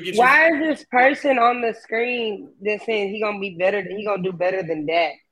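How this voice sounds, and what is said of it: Hoarse, nearly lost voice. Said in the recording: “you can tell my voice is gone and everything ... We don't need to come with horse voice.”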